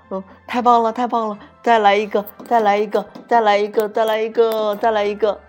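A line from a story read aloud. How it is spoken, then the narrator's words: Joyful cheering laughter. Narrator (Chinese): 年轻的兔子们 欢声笑语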